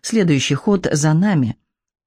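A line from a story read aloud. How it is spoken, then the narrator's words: Said resolutely. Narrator (Russian): решительно проговорил Девон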